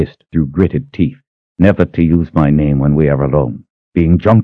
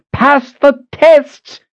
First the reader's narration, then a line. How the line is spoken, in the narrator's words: she screamed